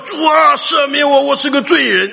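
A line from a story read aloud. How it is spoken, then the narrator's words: Hoarse shouting. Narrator (Chinese): 那么一喊几句，嗓子也哑了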